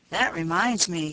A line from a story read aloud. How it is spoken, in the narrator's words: said Peter